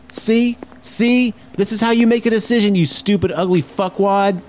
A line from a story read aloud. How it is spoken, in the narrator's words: she just got out and walked off screaming